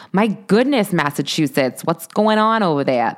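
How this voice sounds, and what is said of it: Bad put-on Massachusetts accent. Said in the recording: “That was a terrible accent”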